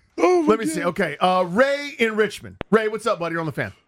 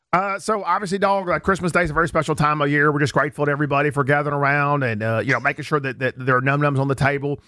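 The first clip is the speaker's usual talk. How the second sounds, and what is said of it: Imitates another person's voice. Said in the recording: “Love your impression. ... Pat Mahomes explaining why there shouldn't be pork on Christmas Day.”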